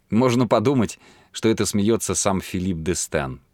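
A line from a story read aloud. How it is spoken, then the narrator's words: Mumbling. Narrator (Russian): пробормотала она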